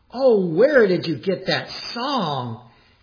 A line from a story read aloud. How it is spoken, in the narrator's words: When the mission director heard the song, he exclaimed